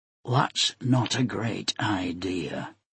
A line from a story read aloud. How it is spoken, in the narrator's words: Ibana said in a low voice